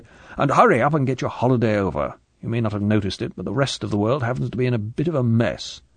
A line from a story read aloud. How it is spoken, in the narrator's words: said M impatiently